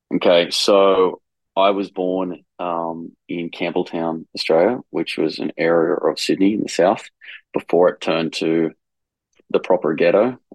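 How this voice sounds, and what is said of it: Foreign, non-Italian accent. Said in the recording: “based on your accent, that's not where you're originally from”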